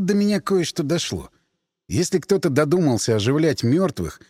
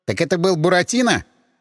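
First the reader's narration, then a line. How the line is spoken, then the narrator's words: Nervous snort. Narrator (Russian): Андрей нервно хмыкнул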